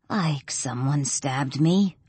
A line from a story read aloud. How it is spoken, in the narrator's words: I croak